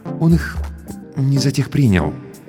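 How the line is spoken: Cautious, timid. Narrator (Russian): осторожно, почти робко выговорил Сарториус

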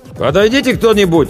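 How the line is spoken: Distant shout. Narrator (Russian): издалека крикнул Чевчаридзе

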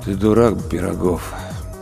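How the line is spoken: Dull ghostly voice. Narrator (Russian): тусклым голосом произнес призрак

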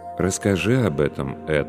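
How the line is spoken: Calm priest's reply. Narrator (Russian): спокойно ответствовал священник

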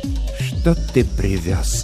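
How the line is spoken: Quiet, polite. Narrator (Russian): спросил он тихим, вежливым голосом

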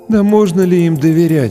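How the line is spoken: Sighing. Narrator (Russian): вздохнул кто-то

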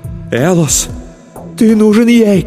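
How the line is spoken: Shouting. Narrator (Russian): кричала

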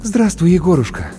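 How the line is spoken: Relieved exhale. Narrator (Russian): облегченно выдохнула Маша

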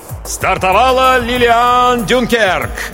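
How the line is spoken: Loud announcer. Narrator (Russian): громко объявил диктор

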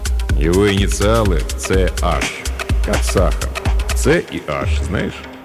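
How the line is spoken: Laughing. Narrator (Russian): новенький засмеялся

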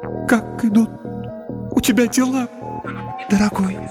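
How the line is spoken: Tender babbling. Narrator (Russian): пролепетала она, но на этот раз в ее голосе послышалось нечто вроде нежности

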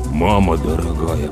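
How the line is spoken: Mutter. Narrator (Russian): пробормотал Слава

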